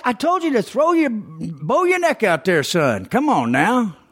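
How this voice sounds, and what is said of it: High-pitched Southern accent impression. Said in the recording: “my baseball coach, his accent, he's kind of one of those high-pitched Southerners.”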